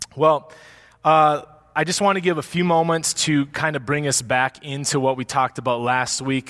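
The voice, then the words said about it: Weak, worn-out voice. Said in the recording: “I don't know if I sound loud out there. My voice is at about 30%... it's running out of gas... Usually trying to project my voice is a strength of mine, but it is not today”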